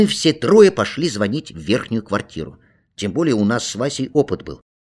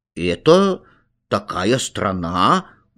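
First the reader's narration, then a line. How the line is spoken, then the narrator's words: Uncertain voice. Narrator (Russian): говорю я неуверенным голосом, потому что точно не знаю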